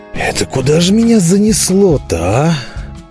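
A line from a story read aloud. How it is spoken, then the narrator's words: Hoarse wheeze. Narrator (Russian): прохрипел я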